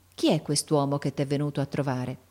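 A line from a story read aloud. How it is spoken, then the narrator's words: Low voice. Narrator (Italian): La maestra disse a bassa voce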